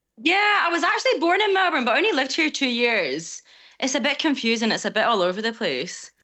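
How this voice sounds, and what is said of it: Mixed Scottish and Australian accent. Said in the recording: “I grew up in Scotland. That's the accent... you get a mix of accents”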